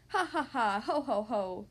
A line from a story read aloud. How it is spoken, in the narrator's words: laughed the 2 little pigs again